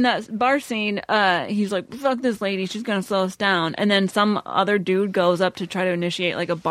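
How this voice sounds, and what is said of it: Usual voice. Nothing is said of it.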